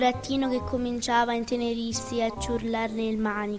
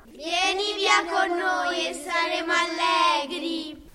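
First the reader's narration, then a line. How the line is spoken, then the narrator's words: Several voices shouting inside. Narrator (Italian): gridarono altre 4 voci di dentro al carro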